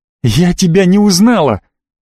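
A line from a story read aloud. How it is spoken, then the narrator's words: Exclaiming. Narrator (Russian): воскликнула Ци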